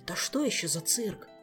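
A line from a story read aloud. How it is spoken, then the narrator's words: Curious whisper. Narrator (Russian): шепотом полюбопытствовал он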